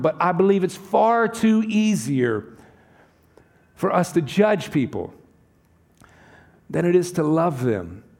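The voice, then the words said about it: Southern United States accent. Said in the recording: “I could tell by his accent. He's from the South. I'm from the South”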